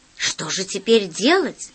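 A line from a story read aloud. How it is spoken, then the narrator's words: Quiet question. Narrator (Russian): спросила голова тихо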